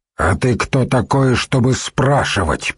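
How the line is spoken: Through gritted teeth. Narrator (Russian): процедил чиновник

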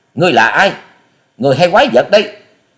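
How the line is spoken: Panicked, forced-calm shout. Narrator (Vietnamese): Thiếu nữ áo xanh hốt hoảng, gượng giọng bình tĩnh quát to

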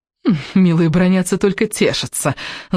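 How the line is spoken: Gloating laugh. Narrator (Russian): злорадно рассмеялась Летти

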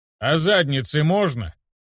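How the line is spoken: Amused snort, teacher. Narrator (Russian): хмыкнул учитель

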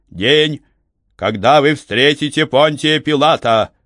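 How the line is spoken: Solemn trained announcer's proclamation. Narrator (Russian): Хорошо поставленным голосом слуги, который привык выкрикивать гостей, номенклатор торжественно провозгласил

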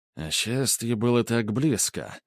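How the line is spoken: Muttering. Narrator (Russian): пробормотал Грубер

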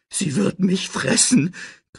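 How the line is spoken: Shrieking. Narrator (German): kreischte Pumba

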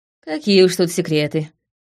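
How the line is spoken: Sighing. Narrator (Russian): вздохнула я

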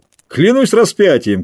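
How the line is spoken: Shout. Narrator (Russian): крикнул он

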